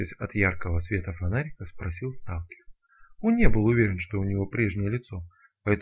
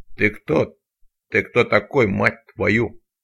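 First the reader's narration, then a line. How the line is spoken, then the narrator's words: Gruff bark. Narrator (Russian): рявкнул он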